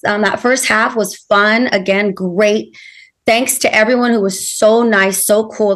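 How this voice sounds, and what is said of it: Hoarse, strained voice. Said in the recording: “lost my voice.”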